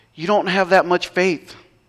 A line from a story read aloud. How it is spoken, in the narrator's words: Jesus said